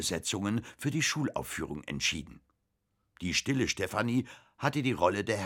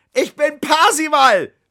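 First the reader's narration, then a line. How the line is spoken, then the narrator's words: Shouted upward. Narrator (German): schrie zum Fenster hinauf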